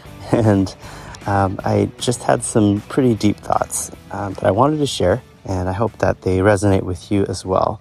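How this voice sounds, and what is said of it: Voice a little lower than usual. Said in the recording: “My voice is a little bit lower because I'm walking around”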